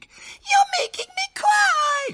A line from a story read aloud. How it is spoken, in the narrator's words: sobbed